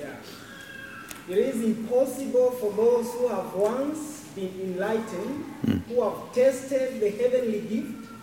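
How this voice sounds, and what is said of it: Speaks with a noticeable accent. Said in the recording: “Forgive my accent.”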